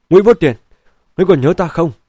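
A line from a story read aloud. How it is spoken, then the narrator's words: Middle-aged man's impulsive shout. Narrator (Vietnamese): một vị tuổi trung niên không dằn lòng nổi, quát lên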